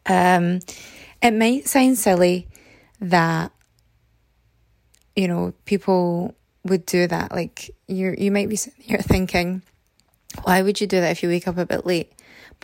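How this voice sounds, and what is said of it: Hoarse, fading voice. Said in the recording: “Oh dear, I'm losing my voice.”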